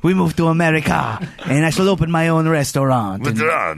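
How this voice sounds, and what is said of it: Put-on French accent. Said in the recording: “the French chef ... Accent? Do it an accent.”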